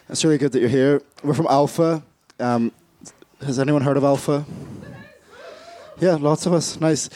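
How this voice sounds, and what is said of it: Hoarse, raspy, mostly lost voice. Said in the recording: “I don't normally sound like I'm from Nickelback. I've lost my voice, if you can't tell.”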